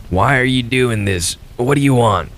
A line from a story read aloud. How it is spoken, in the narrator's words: he wheezed